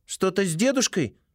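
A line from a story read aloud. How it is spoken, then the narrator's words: Worried question. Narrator (Russian): спрашивает взволнованно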